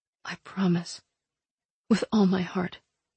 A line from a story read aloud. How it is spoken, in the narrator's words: I said softly